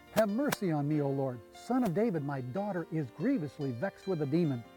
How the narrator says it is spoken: a woman of Canaan came out of these borders and cried to him, saying

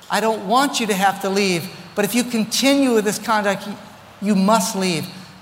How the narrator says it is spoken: And she pled with him and she begged him

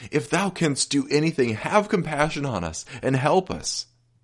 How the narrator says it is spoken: The Father told the story of long years of suffering, and then, as if he could endure no more, exclaimed

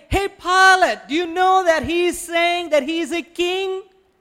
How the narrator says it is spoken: People in the crowd started yelling and saying

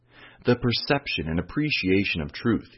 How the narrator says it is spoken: he said

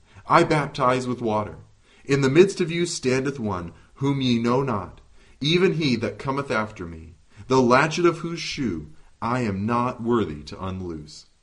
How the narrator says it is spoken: he cried

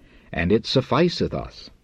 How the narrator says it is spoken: exclaimed Philip

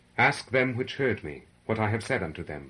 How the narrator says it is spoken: replied Jesus

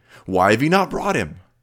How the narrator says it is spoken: They were angrily questioned

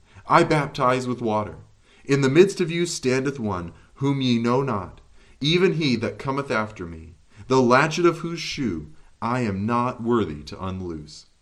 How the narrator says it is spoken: he cried

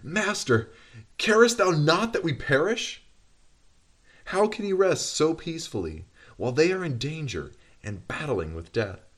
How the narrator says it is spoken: In amazement and despair they exclaim

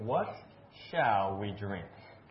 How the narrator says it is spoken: the people murmured against Moses, saying

